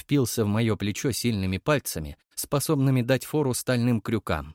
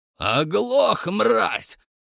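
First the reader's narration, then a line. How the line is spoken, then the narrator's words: Furious roar. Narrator (Russian): взревел взбешенный бугай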